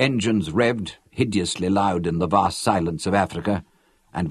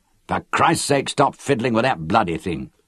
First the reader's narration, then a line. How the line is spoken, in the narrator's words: Lorin snapped at me with unnecessary violence